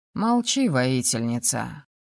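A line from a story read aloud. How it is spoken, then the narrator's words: Snorting. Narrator (Russian): Фыркнул Роман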